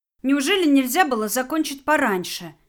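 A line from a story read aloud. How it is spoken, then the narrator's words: Angry scolding. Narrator (Russian): сердито выговаривала Валерию Настя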